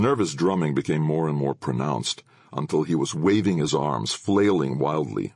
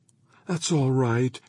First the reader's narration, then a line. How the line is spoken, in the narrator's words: she cooed